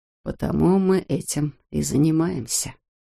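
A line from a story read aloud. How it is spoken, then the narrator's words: Quiet. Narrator (Russian): тихо сказал он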